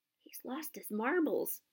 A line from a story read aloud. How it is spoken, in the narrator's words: Ron muttered in Harry's ear